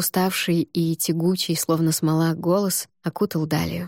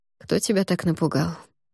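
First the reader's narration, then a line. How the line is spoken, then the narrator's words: Quiet question. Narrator (Russian): негромко спросил Эван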